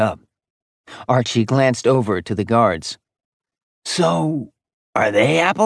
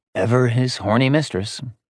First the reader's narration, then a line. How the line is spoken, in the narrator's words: he sighed